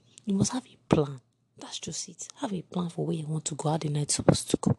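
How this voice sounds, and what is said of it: Whispering. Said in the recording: “I'm whispering, I don't know if you can hear me properly”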